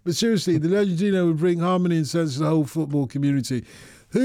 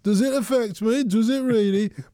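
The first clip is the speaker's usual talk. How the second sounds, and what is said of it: Put-on Brummie accent. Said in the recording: “In my Brummy accent”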